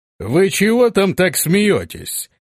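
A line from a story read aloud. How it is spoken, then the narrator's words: Loud commanding question. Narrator (Russian): спросил он зычным, властным голосом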